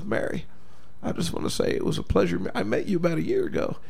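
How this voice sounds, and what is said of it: Bill Clinton impression. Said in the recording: “Did you use Bill Clinton as an example to do that voice? ... I can't even do his voice.”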